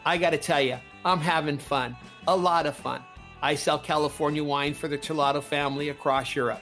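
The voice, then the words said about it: Southern California accent. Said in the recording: “keep the Southern California accent while living here in London”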